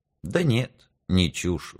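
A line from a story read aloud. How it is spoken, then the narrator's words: Sighing. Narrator (Russian): вздохнул Горько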